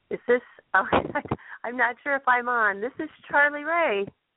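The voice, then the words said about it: Stuffy, congested voice. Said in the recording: “I have a bit of a cold, so it's a little stuffy ... it's got that nice, sexy Demi Moore resonance going.”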